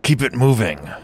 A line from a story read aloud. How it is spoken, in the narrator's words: Hex growled from behind, pain barely disguised in his voice